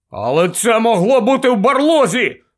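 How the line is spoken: Loud shout. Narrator (Ukrainian): голосно крикнув Рон

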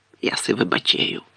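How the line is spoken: Whispered in ear. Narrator (Ukrainian): пошепки додав Гегрід на вухо Гаррі

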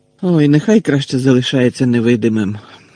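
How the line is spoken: Disapproving grumble. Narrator (Ukrainian): несхвально буркнув Гаррі

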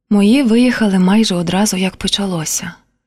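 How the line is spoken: Quiet. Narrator (Ukrainian): тихо сказала Поліна

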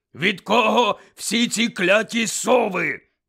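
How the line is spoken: Growled. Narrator (Ukrainian): прогарчав

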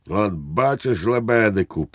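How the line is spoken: Triumphant exclamation. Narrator (Ukrainian): переможно вигукнув підпоручник Дуб

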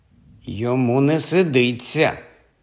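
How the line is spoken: Grumble. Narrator (Ukrainian): буркнув Кальцифер

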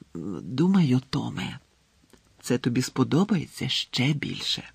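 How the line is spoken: Whisper. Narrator (Ukrainian): прошепотіла вона

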